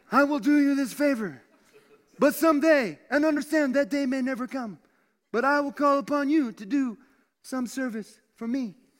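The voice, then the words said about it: Godfather-style mobster voice impression. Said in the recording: “This is my Godfather impression.”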